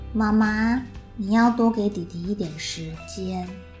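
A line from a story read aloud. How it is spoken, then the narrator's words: Slow, sage-like, sleepy child. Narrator (Chinese): 快睡着的哥哥，他就好像大师开示一样，慢慢的说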